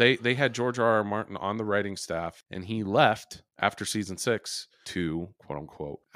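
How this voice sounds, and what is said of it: Usual voice. Nothing is said of it.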